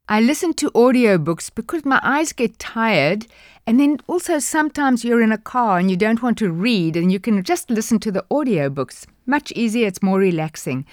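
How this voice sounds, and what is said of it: South African accent. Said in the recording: “she would have my accent. ... she can certainly do a South African one.”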